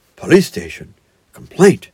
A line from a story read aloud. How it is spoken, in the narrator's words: murmured Toad dreamily